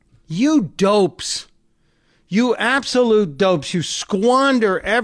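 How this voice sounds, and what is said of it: Usual voice. Nothing is said of it.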